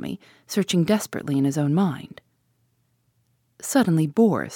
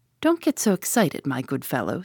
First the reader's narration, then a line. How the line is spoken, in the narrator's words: said Tommy calmly